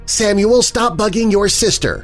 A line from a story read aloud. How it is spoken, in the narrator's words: Rose yelled